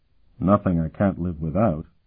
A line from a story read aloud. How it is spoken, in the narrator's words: Sparhawk replied dryly